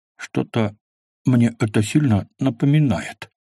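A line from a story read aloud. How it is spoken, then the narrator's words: Mumbled. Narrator (Russian): пробормотал Квас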